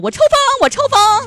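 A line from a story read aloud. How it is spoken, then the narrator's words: Shouting. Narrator (Chinese): 喊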